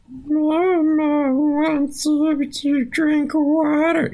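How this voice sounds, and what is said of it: Weird creepy Smeagol-like character voice. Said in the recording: “some weird voice. And that was, you guys might not know this, but that was a pretty good impression. ... Either way, a good Smeagol.”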